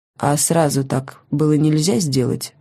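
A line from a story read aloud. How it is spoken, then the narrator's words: Dry question. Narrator (Russian): сухо спросил маньяк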